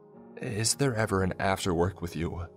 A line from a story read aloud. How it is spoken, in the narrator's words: I chuckled